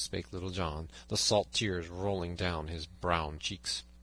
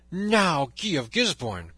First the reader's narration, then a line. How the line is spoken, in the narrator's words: cried he